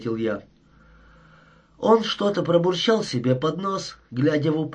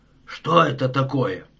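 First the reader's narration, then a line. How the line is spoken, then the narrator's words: Hoarse question. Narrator (Russian): спросил своим сиплым голосом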